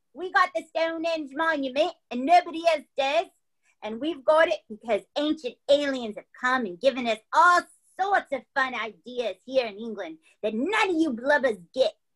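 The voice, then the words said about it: Exaggerated Cockney accent. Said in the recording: “a horrible Cockney accent because Stonehenge is in England”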